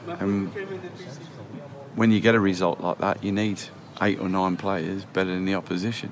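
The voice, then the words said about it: Soothing voice, Australian accent. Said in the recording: “So soothing is his voice. Born in Australia, you can tell that Australian lilt is there.”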